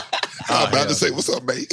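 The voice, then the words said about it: Attempted London accent, sounds Australian. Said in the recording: “I'm about to do a London accent ... that's Australia ... It's not British ... You so far wrong”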